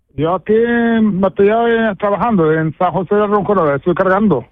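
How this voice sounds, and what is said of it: Moroccan accent in Spanish. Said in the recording (Spanish): “todavía tienes tu acento de tu tierra ... todavía tienes tú el acento ahí”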